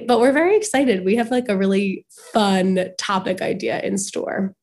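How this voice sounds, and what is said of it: Sniffly, slightly raspy voice. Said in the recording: “if I sound a little sniffly ... I feel like I sound like a little raspy, like, you know, when like singers have that like rasp”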